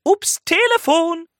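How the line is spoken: Calling out. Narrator (German): ruft Lila

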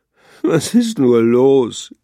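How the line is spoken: Whining. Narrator (German): jammerte Kröte

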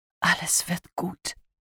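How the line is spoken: Whispering. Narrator (German): flüsterte er

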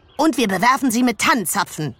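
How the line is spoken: Calling out. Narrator (German): rief Karlchen

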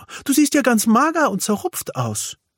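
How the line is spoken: Called out by mother. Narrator (German): ruft die Wichtelmama

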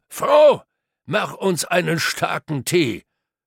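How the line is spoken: Calling into the house. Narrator (German): Dieser Peter rief nun ins Haus hinein

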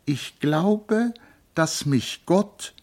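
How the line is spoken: Slow speech. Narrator (German): sprach langsam

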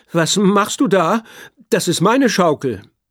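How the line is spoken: Trembling voice calling. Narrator (German): ruft Paula mit zitternder Stimme

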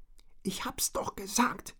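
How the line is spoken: Hissed. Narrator (German): zischte Richard

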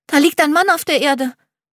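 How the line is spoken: Excited. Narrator (German): sagt er aufgeregt

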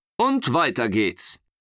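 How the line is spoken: Calling out. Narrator (German): rief sein Känguru-Vater

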